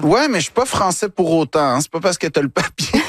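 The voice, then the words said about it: Québécois French accent. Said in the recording (French): “je fais vraiment attention à ne pas perdre mon accent ... je tiens à rester québécois”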